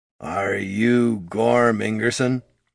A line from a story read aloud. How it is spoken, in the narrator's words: he asked in a gravelly voice